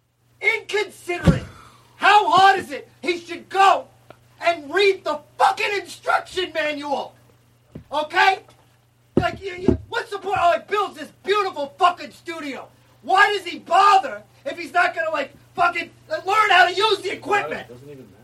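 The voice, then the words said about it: Angry yelling. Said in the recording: “You're yelling at me... Why are you yelling at me”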